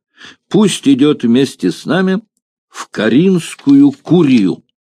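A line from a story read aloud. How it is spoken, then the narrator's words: Sudden loud shout. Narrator (Russian): Вдруг кто-то громко крикнул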